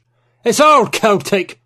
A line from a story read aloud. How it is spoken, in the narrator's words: Penhallow exclaimed